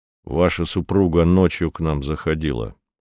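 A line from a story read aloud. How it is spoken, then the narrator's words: Plain. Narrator (Russian): сказал Редрик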